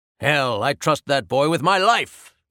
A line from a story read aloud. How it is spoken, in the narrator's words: yelled my father